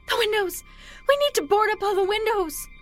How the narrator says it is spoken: his wife shrieks

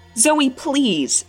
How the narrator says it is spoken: shouted

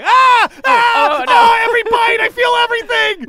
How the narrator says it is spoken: a halfling just covered in ants screaming

